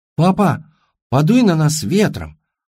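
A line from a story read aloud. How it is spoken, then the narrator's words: Little girl's whisper. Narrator (Russian): прошептала его маленькая дочка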